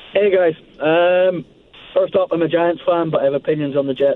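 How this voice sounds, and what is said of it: Strong non-American accent. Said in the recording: “I love your accent. It's phenomenal. ... The accent doesn't seem to be going anywhere. ... an accent like that ... if you had just a normal American accent”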